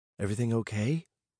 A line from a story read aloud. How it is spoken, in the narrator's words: Paige whispered